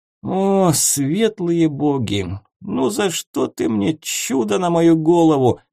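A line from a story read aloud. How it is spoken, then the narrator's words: Groaning. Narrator (Russian): простонал маг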